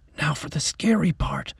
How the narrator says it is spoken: Mac whispered

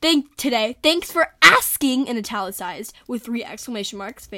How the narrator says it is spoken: Faith screams

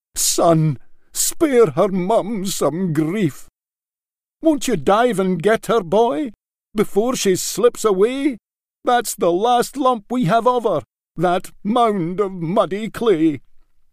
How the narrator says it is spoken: MacNeil took a knee and begged him

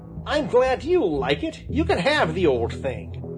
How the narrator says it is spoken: snapped Johnny Chuck

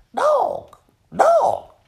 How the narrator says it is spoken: croaking real quiet to herself

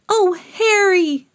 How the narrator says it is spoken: they cried

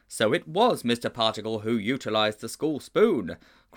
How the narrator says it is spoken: cried Mildew and Sponge in unison

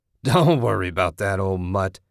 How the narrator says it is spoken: he laughed

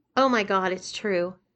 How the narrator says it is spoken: exclaimed Yolanda

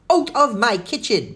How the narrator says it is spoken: bellowed the rotund lady as she spotted cookies missing from her baking sheet

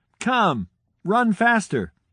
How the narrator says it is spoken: shouted her friend

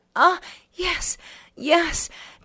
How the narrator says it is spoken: she was twisting and moaning, saying

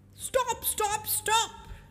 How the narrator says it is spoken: Rabbit cried

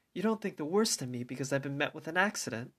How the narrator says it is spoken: stopped in confusion, sighed bitterly

